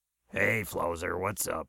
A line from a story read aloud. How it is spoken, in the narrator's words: He muttered